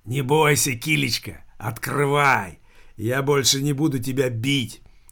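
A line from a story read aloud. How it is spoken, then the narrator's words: Muffled hoarse rasp. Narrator (Russian): хрипел за дверью мертвый Филипп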